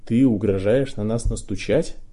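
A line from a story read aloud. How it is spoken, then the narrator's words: Trembling attempt at menace. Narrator (Russian): красавчик из Гриффиндора хотел, чтобы это прозвучало грозно, но мешала дрожь в голосе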